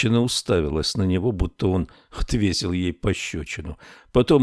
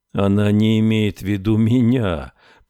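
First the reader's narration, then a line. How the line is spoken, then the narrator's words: Unhappy voice. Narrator (Russian): произнес Кокер несчастным голосом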